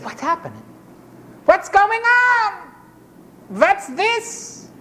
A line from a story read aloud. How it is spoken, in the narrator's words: As they heard a great crowd and people shouting and all the confusion, and they said